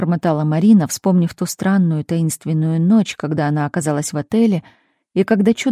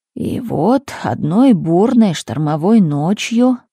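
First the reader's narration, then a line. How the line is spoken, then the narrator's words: Sepulchral voice. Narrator (Russian): продолжил Милорад загробным голосом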